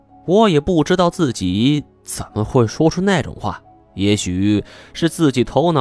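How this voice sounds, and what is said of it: Usual voice. Nothing is said of it.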